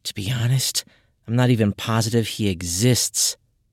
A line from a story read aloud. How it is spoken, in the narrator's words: With a heavy sigh, she said